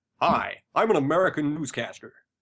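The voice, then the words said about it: Put-on American newscaster accent, somewhat Canadian. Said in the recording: “That's actually pretty good. ... Not a bad American accent there ... A little more Canadian, but that's pretty goddamn. I would not have said English if I heard that at all. I would have said Toronto, maybe.”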